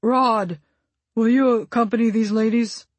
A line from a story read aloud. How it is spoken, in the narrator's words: he called out over his shoulder